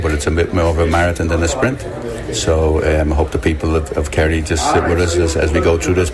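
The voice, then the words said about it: Dublin accent with American tinge. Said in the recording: “the accent is not from South Kerry or Villanchild or West Kerry. There's a bit of a dub mixed with a bit of American there ... I'm obviously from the north side of Dublin”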